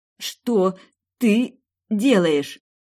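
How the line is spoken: Forced out. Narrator (Russian): выдавила я

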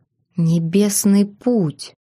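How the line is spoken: Whispered. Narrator (Russian): прошептал Террион

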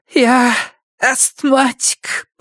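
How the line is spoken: Wheezing. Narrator (Russian): прохрипела она Страйку

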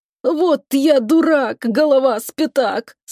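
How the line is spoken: Groan through clenched teeth. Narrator (Russian): сквозь зубы простонал он

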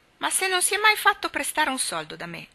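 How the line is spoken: Exclaiming. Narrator (Italian): esclamò Tommy

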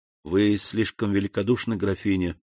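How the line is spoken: Gentle, respectful. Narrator (Russian): сказал он необычайно мягко и почтительно

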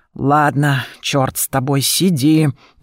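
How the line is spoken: Resigned grumble. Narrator (Russian): проворчала я, сдаваясь

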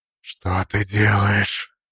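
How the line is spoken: Alarmed whisper. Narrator (Russian): Шепот Нандора был встревоженным

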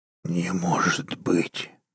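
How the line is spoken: Muffled breathy exhale. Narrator (Russian): глухо выдохнул Уолтер

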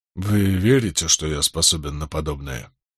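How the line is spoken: Barely audible. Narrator (Russian): произнес он едва слышно

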